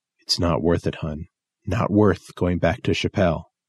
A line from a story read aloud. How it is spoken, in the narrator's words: whispered